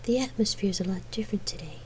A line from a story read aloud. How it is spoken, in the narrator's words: Gabrielle murmured after a few minutes of comfortable silence